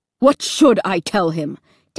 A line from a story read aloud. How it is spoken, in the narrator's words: Dad snapped back